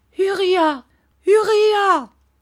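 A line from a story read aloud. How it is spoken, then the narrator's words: Mother shouting. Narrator (French): cria sa mère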